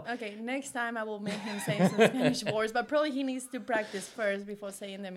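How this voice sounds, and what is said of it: Non-native accent in English. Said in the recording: “I'm here speaking English, and I know I have an accent.”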